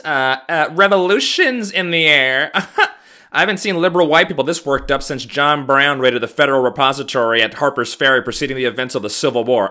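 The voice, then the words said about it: Imitates another person's voice. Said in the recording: “I used to do a Dennis Miller impression ... Like if 80s Dennis Miller was still around. He'd go a little something like this.”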